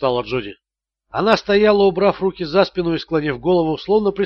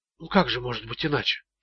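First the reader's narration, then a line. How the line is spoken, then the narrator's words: Whisper. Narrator (Russian): шепотом произнесла Джоди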